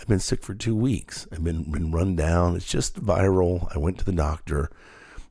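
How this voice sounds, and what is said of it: Sick-sounding voice. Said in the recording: “as you can hear in my voice probably still today, I'm sick now”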